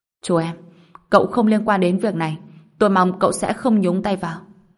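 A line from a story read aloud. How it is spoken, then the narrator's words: Raised voice. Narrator (Vietnamese): Ông ta cao giọng nói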